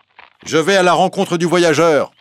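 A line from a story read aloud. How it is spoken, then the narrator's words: Shouted. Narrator (French): crie Muche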